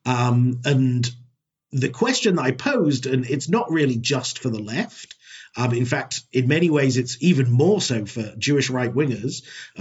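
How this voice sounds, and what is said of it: British accent. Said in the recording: “as you can probably tell from my accent, and if you remember from what Liel said, I grew up in the UK.”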